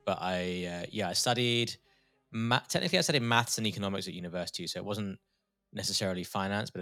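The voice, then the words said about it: British accent. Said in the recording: “I'm detecting from your accent you're from the UK.”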